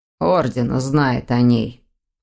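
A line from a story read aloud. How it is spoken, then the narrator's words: Hoarse. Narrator (Russian): хрипло добавил Дамиан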